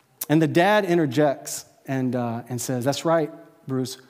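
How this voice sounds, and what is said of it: Usual voice. Nothing is said of it.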